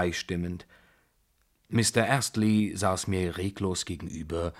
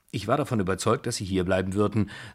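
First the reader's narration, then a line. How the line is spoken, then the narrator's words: Plain. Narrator (German): sagte Mr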